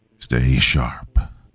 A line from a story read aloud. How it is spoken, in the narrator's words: Donovan ordered, his voice low